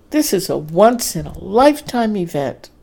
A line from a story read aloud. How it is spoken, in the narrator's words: Dorrie exclaimed